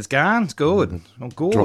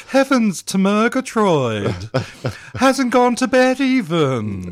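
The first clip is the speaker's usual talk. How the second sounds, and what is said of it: Cartoon character voice impression. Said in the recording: “How do you like my Snagglepuss? ... Oh, it's spot on.”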